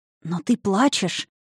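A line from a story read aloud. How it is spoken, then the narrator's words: Anxious whisper. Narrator (Russian): тревожным шепотом сообщила она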